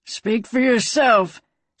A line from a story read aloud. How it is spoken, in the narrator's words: Slim growled back at her